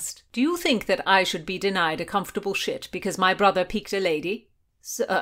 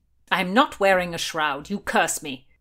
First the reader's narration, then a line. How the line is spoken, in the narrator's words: Blackjack growled